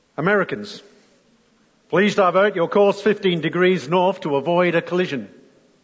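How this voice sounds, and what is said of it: Weak put-on American accent. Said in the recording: “Not the best American accent, I know”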